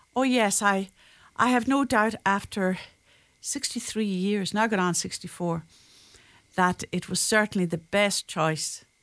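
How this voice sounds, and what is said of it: Irish accent. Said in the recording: “you certainly have retained much of your accent. Irish accent.”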